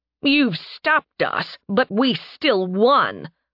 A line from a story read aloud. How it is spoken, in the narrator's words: one of them spat